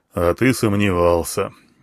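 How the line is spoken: Joyless snort. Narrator (Russian): невесело хмыкнул слон

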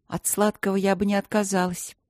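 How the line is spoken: Sighing. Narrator (Russian): вздохнула она

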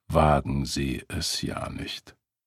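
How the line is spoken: Growled. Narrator (German): Der Detective knurrte hinter ihm

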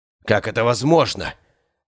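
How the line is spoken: Barely audible mumble. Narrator (Russian): Едва слышно пробурчал Владимир Алексеевич

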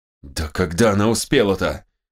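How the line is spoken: Angry, through clenched teeth. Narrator (Russian): процедил, сжимая кулаки, Чингиз

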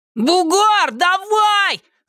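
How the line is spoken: Shouted from opposite stands. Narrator (Russian): закричал Костя Зайцев с противоположной трибуны

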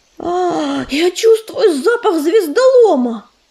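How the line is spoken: Exclamation. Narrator (Russian): воскликнул Частокол

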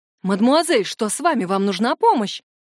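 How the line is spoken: Worried whisper. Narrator (Russian): взволнованно шепчет незнакомка

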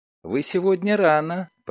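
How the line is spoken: Cooing. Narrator (Russian): проворковала Лиля

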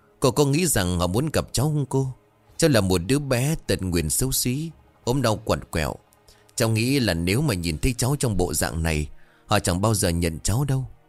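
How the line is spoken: Sighing question. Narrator (Vietnamese): Đoàn nó thở dài hỏi

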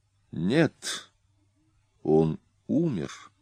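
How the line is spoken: Calm young woman. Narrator (Russian): спокойно произнесла девушка

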